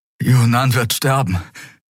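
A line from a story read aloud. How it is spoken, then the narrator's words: Gasped. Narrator (German): keuchte Kai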